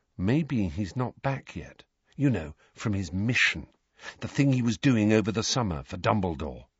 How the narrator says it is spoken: Harry said very quietly, so that Neville, Parvati and Lavender could not hear

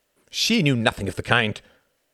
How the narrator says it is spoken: snapped Martin

